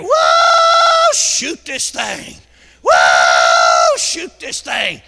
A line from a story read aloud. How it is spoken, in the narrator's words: he started hollering down there